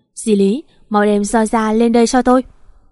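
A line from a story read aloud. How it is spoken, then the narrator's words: Shouting loudly. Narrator (Vietnamese): Quang Hùng quát lớn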